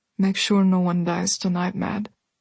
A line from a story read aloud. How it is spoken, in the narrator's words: Bastian said softly